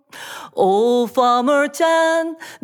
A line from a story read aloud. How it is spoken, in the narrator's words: the neighbors exclaimed